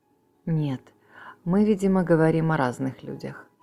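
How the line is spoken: Cold reply. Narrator (Russian): холодно ответил Бейтман

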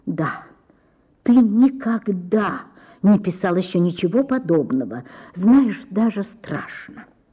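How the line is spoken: Quiet, jealous. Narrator (Russian): Ольга Ивановна ревновала, говорила тихо

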